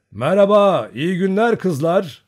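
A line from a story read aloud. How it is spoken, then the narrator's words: Booming voice. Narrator (Turkish): Gür bir sesle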